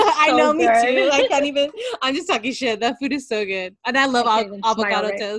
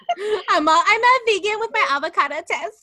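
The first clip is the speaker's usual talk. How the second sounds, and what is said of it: Put-on stereotypical LA accent. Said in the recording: “I sound like a freaking LA bitch.”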